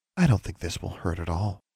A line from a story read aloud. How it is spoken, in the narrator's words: whispered soothingly